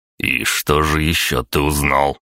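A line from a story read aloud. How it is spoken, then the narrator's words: Icy inquiry. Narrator (Russian): ледяным голосом поинтересовался он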